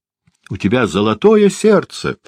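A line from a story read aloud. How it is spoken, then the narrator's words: Wife exclaiming. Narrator (Russian): воскликнула жена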